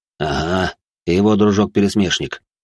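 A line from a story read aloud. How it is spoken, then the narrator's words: Reply with heavy sigh. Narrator (Russian): ответил де Фаллен и тяжело вздохнул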